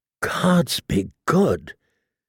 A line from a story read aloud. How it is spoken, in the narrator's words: he said in a choked voice